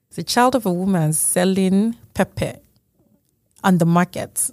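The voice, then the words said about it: Put-on African accent. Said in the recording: “this is where I bust out my African accent.”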